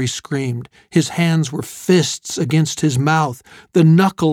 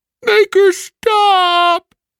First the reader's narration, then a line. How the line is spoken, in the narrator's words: Elphys uttered a long, echoing groan